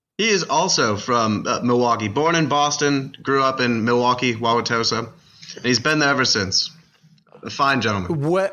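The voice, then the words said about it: Slight Boston Brahmin accent. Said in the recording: “this a little Boston Brahmin accent sort of makes a little bit of a sense ... That's a classic Tufts Dental School accent.”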